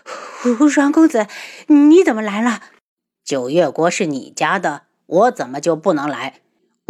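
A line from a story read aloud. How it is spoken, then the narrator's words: Breathless, panting. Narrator (Chinese): 花千颜一边喘息一边道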